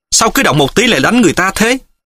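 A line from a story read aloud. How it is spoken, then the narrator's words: Angry. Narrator (Vietnamese): Triệu Mẫn tức giận nói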